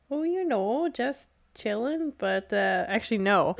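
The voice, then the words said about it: Put-on Minnesota accent. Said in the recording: “You adopted the Minnesota accent.”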